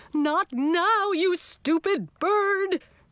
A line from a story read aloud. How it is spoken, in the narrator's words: shouted the witch